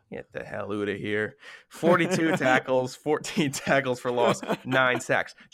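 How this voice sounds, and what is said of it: Subtle put-on Canadian accent. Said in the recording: “that's how you do a Canadian accent. You say the oots. You don't go and do A's or whatever you do. It has to be more subtle.”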